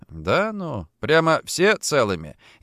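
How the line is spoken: Sarcastic mutter. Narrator (Russian): язвительно пробормотал я

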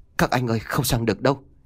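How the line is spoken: Boy stammering. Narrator (Vietnamese): thằng cu lắp bắp nói

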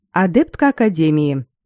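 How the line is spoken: Dry and dignified. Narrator (Russian): сухо и с должным достоинством сказала Айлин

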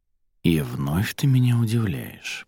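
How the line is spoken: Whispered in ear. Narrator (Russian): прошептал Мерден Арадии на ухо

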